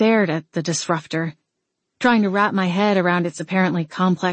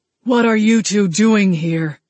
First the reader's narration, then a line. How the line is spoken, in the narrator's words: Tobe's voice thundered straight through me